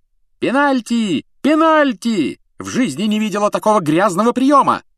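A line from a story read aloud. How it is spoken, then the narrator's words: Woman shouting. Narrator (Russian): закричала мадам Трюк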